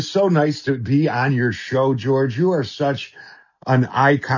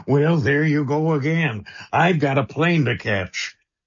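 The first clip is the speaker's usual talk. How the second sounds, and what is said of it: Imitates another person's voice. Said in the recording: “your Reagan impression”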